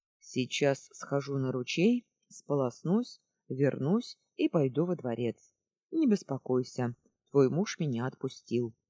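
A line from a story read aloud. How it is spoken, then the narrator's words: Calm. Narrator (Russian): Спокойно сказал Зерра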